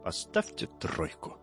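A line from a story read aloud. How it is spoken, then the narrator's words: Quiet. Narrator (Russian): Витька Садиков ... тихо говорит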